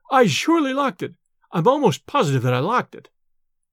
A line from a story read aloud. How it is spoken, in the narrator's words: he stammered